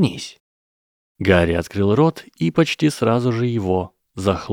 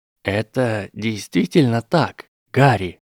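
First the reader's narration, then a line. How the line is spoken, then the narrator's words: Slow drawl. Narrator (Russian): медленно протянул Дамблдор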